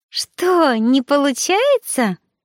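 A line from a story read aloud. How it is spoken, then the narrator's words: Ten-year-old boy giggling. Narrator (Russian): хихикнул рядом мальчонка лет 10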